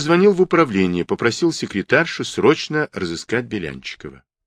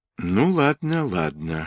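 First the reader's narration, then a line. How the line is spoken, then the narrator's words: Whisper. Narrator (Russian): шептал Игорь Васильевич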